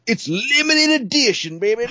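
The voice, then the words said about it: Imitated southern US salesman accent. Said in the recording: “this guy, he had a real southern accent ... I just imitated him all the time”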